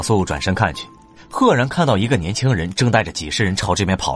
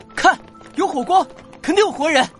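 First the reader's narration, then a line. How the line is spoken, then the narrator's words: Distant shout. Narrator (Chinese): 那边有人喊道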